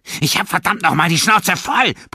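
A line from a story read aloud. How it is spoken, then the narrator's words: Angry shout. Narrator (German): brüllte er den jungen Mann an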